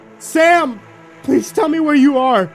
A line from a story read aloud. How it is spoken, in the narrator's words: Sobbing uncontrollably at the sight of my sister's body, I yelled